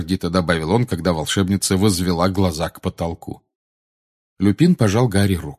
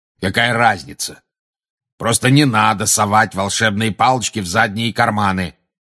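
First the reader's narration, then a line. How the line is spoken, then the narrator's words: Growl. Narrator (Russian): прорычал Грозный Глаз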